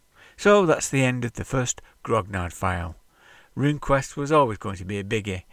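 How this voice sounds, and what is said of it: Nasal drawl. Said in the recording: “my nasal drawl”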